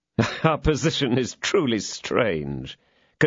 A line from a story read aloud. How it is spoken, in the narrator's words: continued Athos, laughing